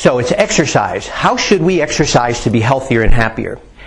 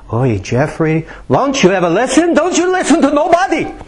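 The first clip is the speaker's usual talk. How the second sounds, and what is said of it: Attempted Jewish accent. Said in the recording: “what kind of a dialect was that? I don't know. I was trying for Jewish, and I lost something in the...”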